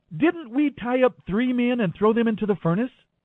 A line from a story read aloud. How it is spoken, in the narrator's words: Nebuchadnezzar jumped up in amazement and exclaimed to his advisers